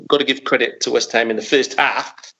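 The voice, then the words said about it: Put-on Australian accent. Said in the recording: “That's rubbish Australian accent. ... no, it was excellent.”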